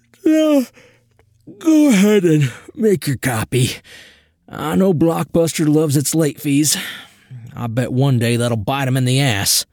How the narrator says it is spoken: Through a yawn, said

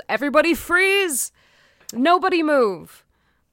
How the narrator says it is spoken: He yells

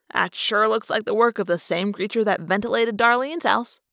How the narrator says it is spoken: Marco said dryly

